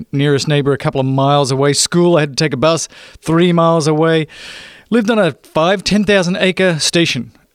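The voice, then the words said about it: Australian accent. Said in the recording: “my accent might give it away just a tad. I didn't grow up here. I'm actually from Australia.”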